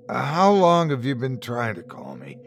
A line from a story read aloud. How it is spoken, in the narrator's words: he said, his voice crackling